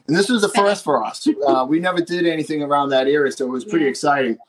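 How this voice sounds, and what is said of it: Boston accent. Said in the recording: “my bad Boston accent”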